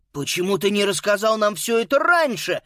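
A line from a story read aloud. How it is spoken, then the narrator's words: Exclaiming. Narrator (Russian): воскликнул Боб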